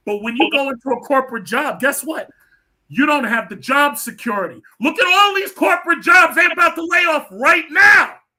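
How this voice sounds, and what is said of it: Loud, yelling-like speech. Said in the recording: “Why are you yelling? ... I just got my microphone on. This is how I talk. I'm a New Yorker. We yell all the time.”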